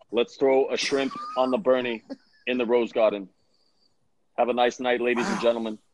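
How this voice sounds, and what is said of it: Imitated voice with Australian accent. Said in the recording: “Bernie Sanders doing an Australian accent”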